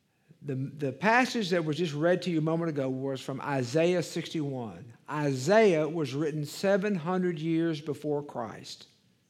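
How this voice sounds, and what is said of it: Deep East Texas accent. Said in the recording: “I have a deep East Texas accent, so it's something different than Southern. It's kind of East Texan”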